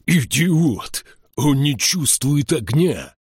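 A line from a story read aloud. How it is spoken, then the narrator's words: Growling. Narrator (Russian): прорычал Эйнскалдир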